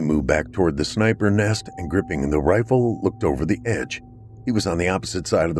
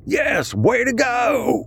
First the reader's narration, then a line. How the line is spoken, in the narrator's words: Jericho screamed